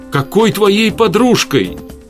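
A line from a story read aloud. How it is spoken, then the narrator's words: Shouted. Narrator (Russian): выкрикнула Светлана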